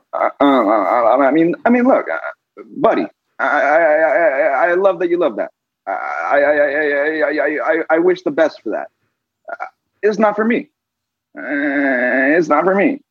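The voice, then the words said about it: Impression of Tom Sharpling. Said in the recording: “do an impression of ... Tom Sharpling. I tried. It's an attempt. ... Tom Sharpling impression.”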